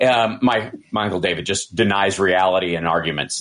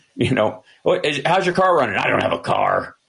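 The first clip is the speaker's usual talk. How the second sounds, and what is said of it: Imitates another person's voice. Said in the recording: “my impersonation of my uncle David”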